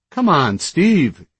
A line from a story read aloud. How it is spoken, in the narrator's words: M-Dash pleaded